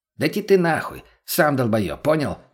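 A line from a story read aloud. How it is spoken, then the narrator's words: Snapping back. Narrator (Russian): Огрызнулся мутный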